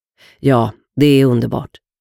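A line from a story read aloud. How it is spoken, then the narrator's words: Calm reply. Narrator (Swedish): Rennie svarade lugnt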